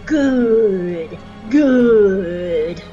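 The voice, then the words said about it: Palpatine character impression. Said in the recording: “my Palpatine impression”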